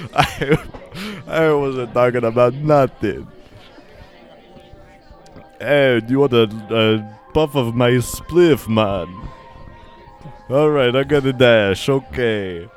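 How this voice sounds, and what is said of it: Put-on Jamaican accent. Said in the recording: “accent ... Jamaican Eye”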